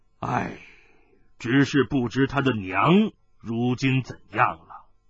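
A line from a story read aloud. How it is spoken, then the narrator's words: Sighing, mirth fading. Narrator (Chinese): 他的笑容突然消失了，叹道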